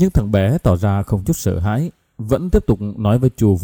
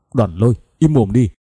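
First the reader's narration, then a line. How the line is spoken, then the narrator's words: Loud shout. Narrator (Vietnamese): La Thiên lớn tiếng quát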